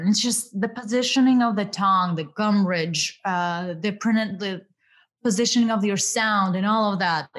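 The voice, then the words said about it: Russian-accented English. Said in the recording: “I really work hard towards reducing my Russian accent ... the Ukrainian or the more Russian accent”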